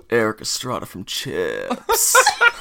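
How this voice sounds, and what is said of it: Imitates another person's voice. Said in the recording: “I think that was your best accent you've ever done... I put passion into a Nick Cage.”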